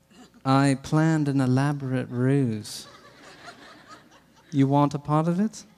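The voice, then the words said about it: Put-on British accent. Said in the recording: “it even deserves a British accent.”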